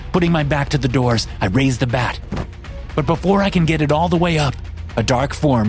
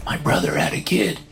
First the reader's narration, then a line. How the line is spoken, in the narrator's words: he whispers